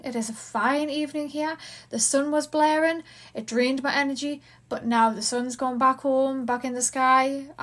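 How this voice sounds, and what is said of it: Geordie accent, fast speech. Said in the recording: “I'm from Newcastle... I don't know if it's a Geordie accent... I do tend to talk really, really fast.”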